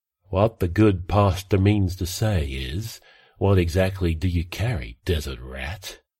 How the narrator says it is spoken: Traveller sighed

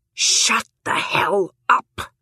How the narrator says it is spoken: She says this aloud in a hissed whisper

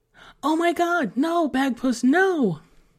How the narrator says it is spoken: Emily cried out behind him

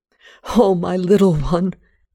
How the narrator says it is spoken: I cried

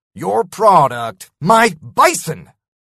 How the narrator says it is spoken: I spat

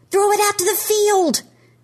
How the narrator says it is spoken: Trevor yells

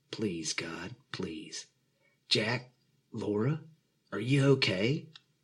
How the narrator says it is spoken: Pastor James's voice echoed from the main speakers

